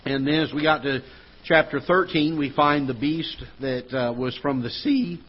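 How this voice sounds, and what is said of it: Voice cracking. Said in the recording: “My voice is cracking there.”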